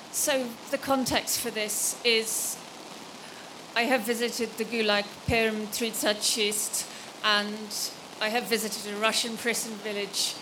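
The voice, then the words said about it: Speaks with a foreign accent. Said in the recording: “I apologize for my accent.”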